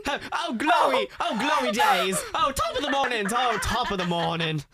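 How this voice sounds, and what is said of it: Put-on British accent. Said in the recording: “accent ... Gay British porn”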